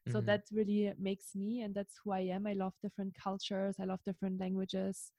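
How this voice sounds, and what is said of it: German-accented English. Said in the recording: “a lot of people always, of course, recognize my accent ... some people think that I'm French because my English accent is a little bit messed up in all different directions”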